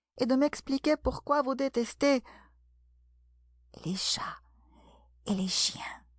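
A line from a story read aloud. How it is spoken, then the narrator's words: Soft, timid addition. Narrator (French): ajouta-t-elle tout bas, craignant encore de déplaire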